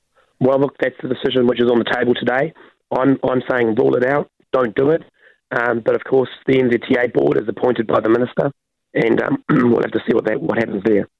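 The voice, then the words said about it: Hoarse, partly lost voice. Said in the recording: “Sounds like you've got a cold ... I've just lost my voice partially.”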